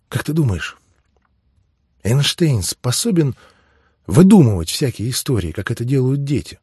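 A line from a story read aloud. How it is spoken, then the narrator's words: Quiet question. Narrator (Russian): спросила Нора тихо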